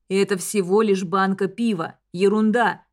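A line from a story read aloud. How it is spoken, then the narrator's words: Strained through gritted teeth. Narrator (Russian): цедит сквозь зубы Лайл, с видимым усилием пытаясь сохранять спокойствие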